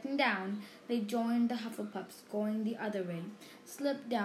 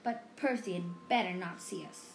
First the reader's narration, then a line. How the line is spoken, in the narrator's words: snapped